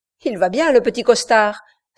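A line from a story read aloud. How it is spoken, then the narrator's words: Exclaimed. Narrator (French): s'écria Garnett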